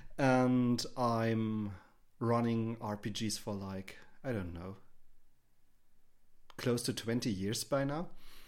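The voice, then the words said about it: German accent. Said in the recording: “I'm over in Germany. You might hear this from my accent.”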